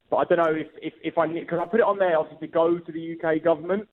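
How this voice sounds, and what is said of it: Essex English accent. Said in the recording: “you can really tell from the accent, not from up north. No, I'm from Essex.”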